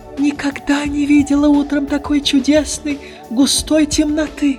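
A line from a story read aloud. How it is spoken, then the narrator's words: Exclaimed. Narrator (Russian): воскликнула она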